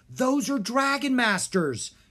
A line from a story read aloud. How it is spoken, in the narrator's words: Drake cried